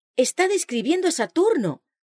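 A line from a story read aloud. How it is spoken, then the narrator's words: Exclaimed. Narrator (Spanish): El pastor Bates exclamó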